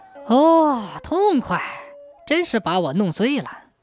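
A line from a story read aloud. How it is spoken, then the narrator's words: Tongue-clicking admiration. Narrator (Chinese): 刘玄石…嘴巴张得大大的，啧啧地发出一阵赞叹声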